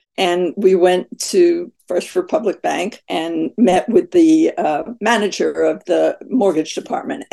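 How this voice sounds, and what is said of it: Scratchy voice. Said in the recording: “My voice is always kind of scratchy.”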